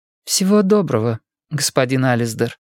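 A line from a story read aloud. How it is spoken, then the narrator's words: Plain. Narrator (Russian): говорит она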